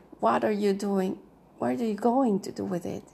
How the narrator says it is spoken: Aunt Augusta said

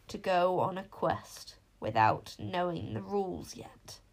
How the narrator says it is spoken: croaked the voice

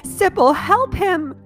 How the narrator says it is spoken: cried

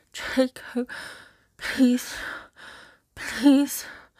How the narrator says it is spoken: she pants

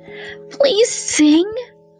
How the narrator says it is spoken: begged the fox

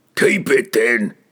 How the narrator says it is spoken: the Furbig snarled at Bigrin

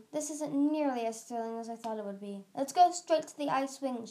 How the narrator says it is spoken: she shouted across to Vermilion

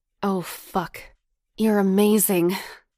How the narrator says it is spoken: he grunted with desire

